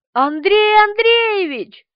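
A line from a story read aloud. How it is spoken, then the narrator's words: Frightened full-voice shout. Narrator (Russian): что было мочи, крикнула она, позабыв от страха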